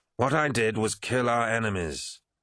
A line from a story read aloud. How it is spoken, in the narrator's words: snapped Eidolon